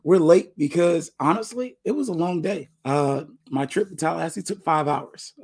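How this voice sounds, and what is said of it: Hoarse, strained voice. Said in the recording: “As y'all can hear, I'm working on it. I think I got laryngitis”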